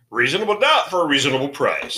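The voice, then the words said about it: Deep announcer voice like Don Pardo. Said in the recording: “Right there sounds like Don Pardo ... That deep voice.”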